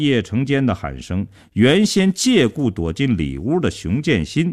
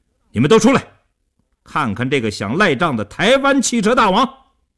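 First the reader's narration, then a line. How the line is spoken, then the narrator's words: Fierce raised shout. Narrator (Chinese): 叶成坚恶狠狠地盯着刘少坤，提高声音对李如喊道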